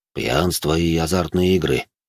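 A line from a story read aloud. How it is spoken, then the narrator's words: Barely audible, very quiet. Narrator (Russian): так тихо проговорил Жуль, что я еле его расслышал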